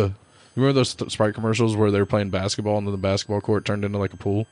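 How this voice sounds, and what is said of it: Usual voice. Nothing is said of it.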